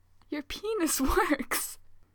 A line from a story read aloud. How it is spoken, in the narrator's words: He giggles in wonder